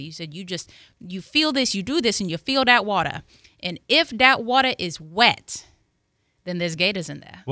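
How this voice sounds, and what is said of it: Attempted Cajun accent. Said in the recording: “I'm going to try to do my best Cajun accent.”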